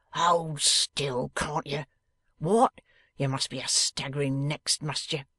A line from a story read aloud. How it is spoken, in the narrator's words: growling